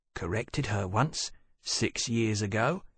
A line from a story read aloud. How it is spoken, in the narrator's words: murmured